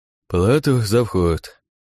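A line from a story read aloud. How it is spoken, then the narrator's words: Lazy yawning guard. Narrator (Russian): лениво зевнув, произнес один из стражников на входе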